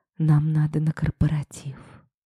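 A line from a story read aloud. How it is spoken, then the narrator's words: Barely audible whisper. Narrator (Russian): едва слышно прошептала я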